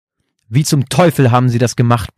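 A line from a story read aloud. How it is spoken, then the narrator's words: Furious roar. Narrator (German): brüllte Brian völlig außer sich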